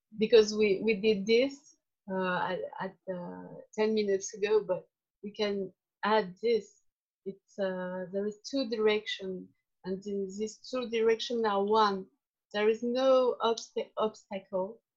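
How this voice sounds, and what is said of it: Non-native English accent. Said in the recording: “sorry my english terrible ... Charming accent, I'm sure.”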